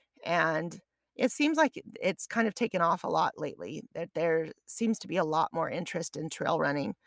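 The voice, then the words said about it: Froggy, hoarse voice. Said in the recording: “apologize for my voice... I've had a cough... my voice goes in and out and I need to clear my throat all the time... sounding froggy”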